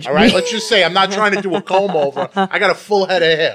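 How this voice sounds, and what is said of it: New York accent. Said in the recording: “You have a New York accent.”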